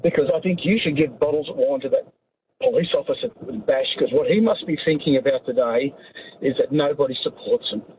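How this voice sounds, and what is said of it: Emotional, strained voice. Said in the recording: “Sorry, I'm a bit emotional, but I am.”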